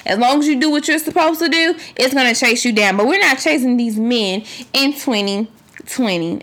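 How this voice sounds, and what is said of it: Loud, passionate preaching delivery. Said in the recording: “I'm sorry that I'm yelling or I feel like I'm preaching, but I'm real passionate ... That's why I sound so passionate.”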